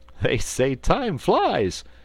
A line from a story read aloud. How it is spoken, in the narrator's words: laughed Button-Bright